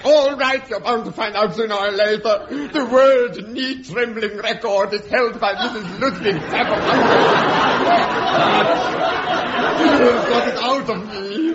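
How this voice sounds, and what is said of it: Ridiculous put-on accent. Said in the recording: “You mean I can drop this ridiculous accent? ... It's a terrible strain on my epiglottis.”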